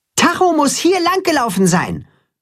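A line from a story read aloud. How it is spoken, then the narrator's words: Calling out. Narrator (German): ruft er Richtung Weide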